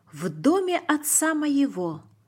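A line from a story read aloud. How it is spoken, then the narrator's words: Plain. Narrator (Russian): сказал он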